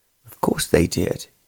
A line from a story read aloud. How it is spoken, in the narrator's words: her father answered